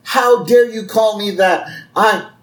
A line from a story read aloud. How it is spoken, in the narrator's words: he yells